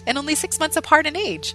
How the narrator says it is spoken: Mary laughed

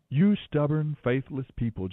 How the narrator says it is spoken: Jesus said

